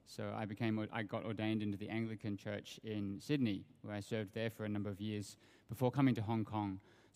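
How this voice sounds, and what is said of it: Australian accent. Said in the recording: “You can probably hear from my accent that I come from Australia.”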